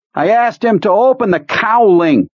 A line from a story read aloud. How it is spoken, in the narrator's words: Brodsky shouted into Owen's ear